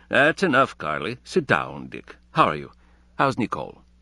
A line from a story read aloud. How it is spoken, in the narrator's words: he said, good-naturedly but firmly